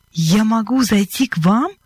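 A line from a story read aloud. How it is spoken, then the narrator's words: Joyful question. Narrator (Russian): радостно переспросил он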